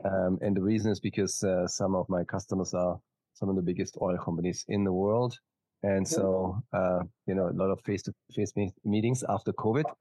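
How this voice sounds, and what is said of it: Slight German accent. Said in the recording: “as you can probably hear from my slight accent, I'm not from Texas. I am from Germany originally.”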